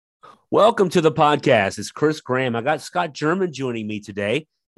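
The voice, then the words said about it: Slightly sick, under-the-weather voice. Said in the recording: “You can tell my voice is still a little under the weather, even though I'm not. It's just I'm recovering from whatever I've got.”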